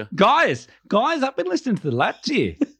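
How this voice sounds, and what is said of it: Mixed Australian, New Zealand, South African accent. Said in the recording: “It's the mix between Australia, New Zealand, and South Africa.”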